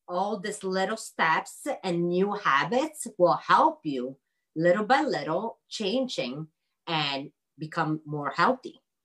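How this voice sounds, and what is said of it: Speaks with a noticeable accent. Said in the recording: “my accent, sorry”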